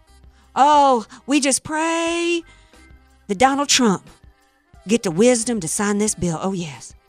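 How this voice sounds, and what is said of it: Mock preacher-style praying voice. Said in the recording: “Doing his best Jimmy Swagger impersonation.”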